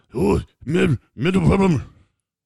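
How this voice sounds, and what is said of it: Imitates another person's voice. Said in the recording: “in my best Max voice”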